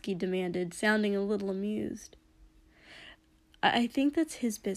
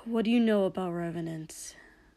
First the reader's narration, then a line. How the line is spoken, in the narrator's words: Katsuki said with a sigh